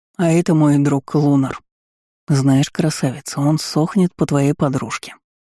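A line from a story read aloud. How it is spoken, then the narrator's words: Conspiratorial tone. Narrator (Russian): сообщил заговорщицким тоном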